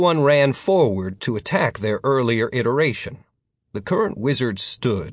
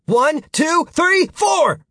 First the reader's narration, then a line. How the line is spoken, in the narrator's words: Future Martin shouted